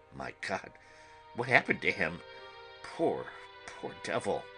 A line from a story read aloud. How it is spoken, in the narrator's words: he said softly